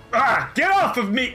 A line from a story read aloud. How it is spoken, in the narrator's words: Tuliax roars and says